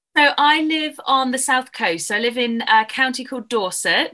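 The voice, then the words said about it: English accent. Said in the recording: “I'm English, as you can probably tell from my accent.”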